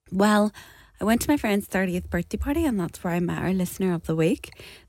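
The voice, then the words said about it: Croaky, hoarse voice. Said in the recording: “As you can hear from my voice, ... A bit croaky.”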